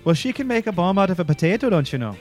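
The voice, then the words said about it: Irish accent slipping into Minnesotan. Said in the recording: “How'd that turn into Minnesota accent? That was weird. ... Midwest.”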